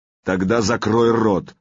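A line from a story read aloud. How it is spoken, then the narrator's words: Growled. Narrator (Russian): прорычал Сергей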